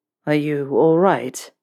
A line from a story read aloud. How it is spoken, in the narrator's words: Draco asked, his voice rough